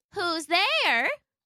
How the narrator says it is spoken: called out a kindly old voice

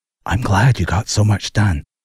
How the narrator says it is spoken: quietly encouraged

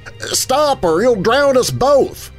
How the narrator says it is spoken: he shouted to the city man

